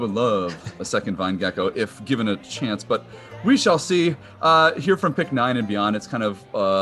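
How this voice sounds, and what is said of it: Usual voice. Nothing is said of it.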